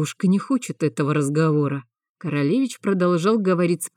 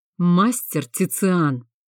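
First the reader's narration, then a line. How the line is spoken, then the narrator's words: Through gritted teeth. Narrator (Russian): процедил сквозь зубы студент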